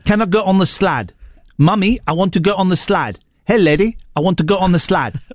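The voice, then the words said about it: Put-on harsh South African accent. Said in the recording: “The worst accent in the world is the South African accent... Harsh accent... the South African accent... the slide is harsh, isn't it?... That's good.”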